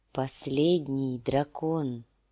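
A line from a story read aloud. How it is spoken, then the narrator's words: Weak whisper. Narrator (Russian): слабым голосом шепнул сир Джорах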